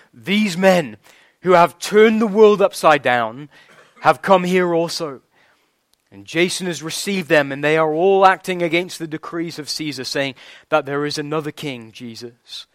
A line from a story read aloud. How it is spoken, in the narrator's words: shouting